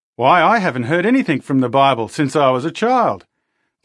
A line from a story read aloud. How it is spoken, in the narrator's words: the man exclaimed